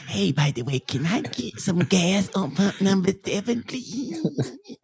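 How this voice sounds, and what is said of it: Speaks in a baby voice. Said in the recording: “speak only in a baby voice for a day ... I'm going to sound like this.”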